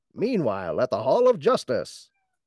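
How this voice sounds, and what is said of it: Super Friends narrator impression. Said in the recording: “reminds me of like the Super Friends narrator ... just change the intonation of the voice”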